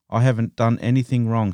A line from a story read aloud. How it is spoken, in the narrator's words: said